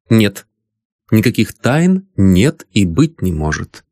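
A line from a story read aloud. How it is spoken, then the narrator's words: Stern lady answering. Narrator (Russian): ответила дама строго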